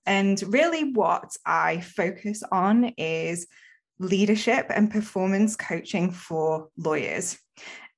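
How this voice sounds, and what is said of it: British accent. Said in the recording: “as you can tell from my accent, I'm from the UK”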